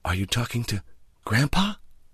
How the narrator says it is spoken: Then in a hushed voice

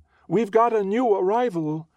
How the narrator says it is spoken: she shouts sing-song

